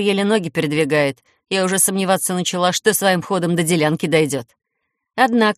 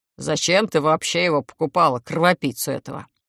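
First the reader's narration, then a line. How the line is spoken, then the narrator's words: Grumbled. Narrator (Russian): буркнул Атани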